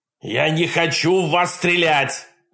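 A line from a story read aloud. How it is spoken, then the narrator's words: Yell. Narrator (Russian): заорал дядя Джек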